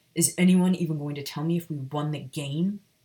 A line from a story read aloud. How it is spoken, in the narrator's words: Sirius growled